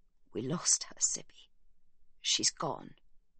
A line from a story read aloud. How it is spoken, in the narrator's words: he croaks